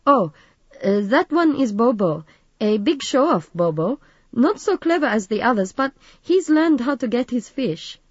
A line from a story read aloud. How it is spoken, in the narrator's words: Carl laughed